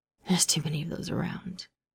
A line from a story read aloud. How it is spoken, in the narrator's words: Bucky rasped